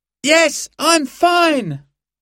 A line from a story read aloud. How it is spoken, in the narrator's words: Simon shouted back